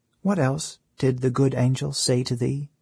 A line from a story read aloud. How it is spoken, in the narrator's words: said little Otto in a hushed voice